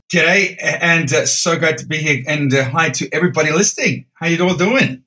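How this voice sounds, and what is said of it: Distinct regional accent. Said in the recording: “I love the accent.”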